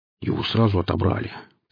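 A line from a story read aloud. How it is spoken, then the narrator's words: Grumbled. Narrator (Russian): пробурчал наемник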